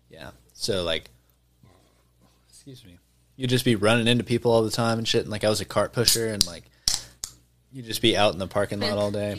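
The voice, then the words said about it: Slightly slurred speech. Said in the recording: “I'm slurring a little bit... Not to be slurring like that.”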